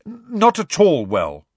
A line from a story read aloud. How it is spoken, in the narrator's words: said Harry firmly